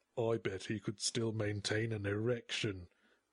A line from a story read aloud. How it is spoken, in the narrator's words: grumbled a decrepit old corpse